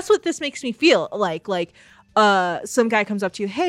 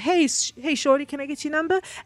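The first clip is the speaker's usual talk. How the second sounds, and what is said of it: Put-on accent. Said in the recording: “I'm so sorry about that accent.”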